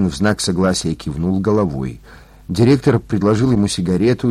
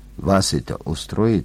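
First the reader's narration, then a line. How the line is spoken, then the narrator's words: Soft voice. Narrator (Russian): Также мягким голосом предложил директор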